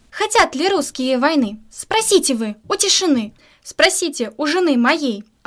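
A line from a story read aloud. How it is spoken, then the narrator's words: Bellowing. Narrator (Russian): орал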